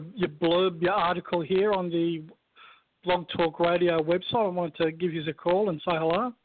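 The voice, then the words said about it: Australian accent. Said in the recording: “Is that a New Zealand accent ... or is that Australian? ... I'm Australian. It's an Australian accent.”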